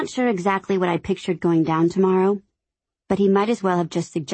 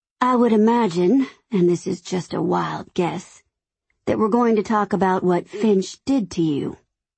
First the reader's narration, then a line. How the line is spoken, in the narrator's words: he said super calmly, and just as sarcastically